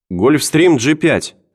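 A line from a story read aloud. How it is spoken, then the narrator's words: Shouted reply. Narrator (Russian): крикнула она в ответ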